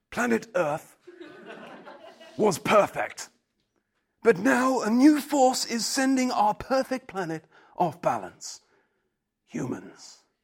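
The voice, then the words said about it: Imitates another person's voice. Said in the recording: “I'm going to attempt my best David Attenborough accent”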